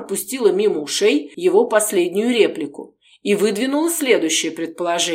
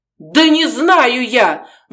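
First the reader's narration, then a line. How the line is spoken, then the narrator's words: Desperate yelling. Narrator (Russian): в отчаянии завопил Артур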